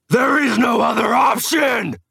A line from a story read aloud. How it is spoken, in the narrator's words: I roared inches from her face